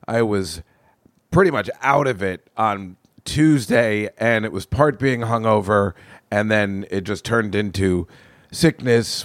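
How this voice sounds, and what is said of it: Slightly off, unwell-sounding voice. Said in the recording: “I don't know whether you can tell. My voice is a little off”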